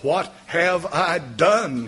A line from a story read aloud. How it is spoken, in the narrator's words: said